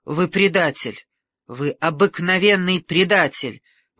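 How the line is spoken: Shouted accusation. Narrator (Russian): выкрикнула Каталина

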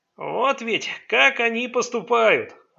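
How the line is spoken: Joyful, animated. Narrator (Russian): радостно оживился Май

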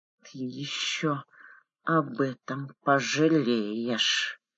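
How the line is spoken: Hissed into ear. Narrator (Russian): Прошипел ему на ухо Квит

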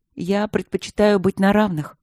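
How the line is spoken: Plain. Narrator (Russian): сказала она

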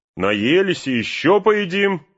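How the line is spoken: Shouted. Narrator (Russian): крикнул Пин

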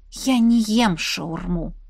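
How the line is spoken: Through clenched teeth. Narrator (Russian): процедила

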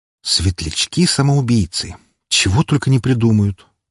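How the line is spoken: Displeased sigh. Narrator (Russian): Недовольно вздохнул

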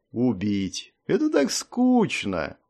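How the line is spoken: Drawled. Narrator (Russian): протянул Варах

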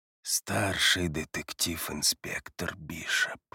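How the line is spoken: Quiet, continuing. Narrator (Russian): негромко продолжает Коул

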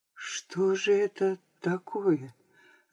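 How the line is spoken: Bewildered whisper. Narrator (Russian): растерянно шептал Аларин

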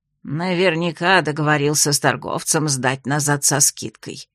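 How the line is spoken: Old woman, through teeth. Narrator (Russian): процедила старуха

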